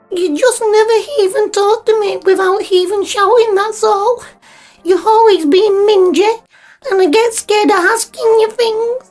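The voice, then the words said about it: Tearful, upset child's voice. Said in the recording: “What are you getting teary-eyed for?”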